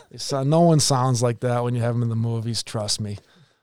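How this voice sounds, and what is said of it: Strong Boston accent. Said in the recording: “it's one of the worst Boston accents around”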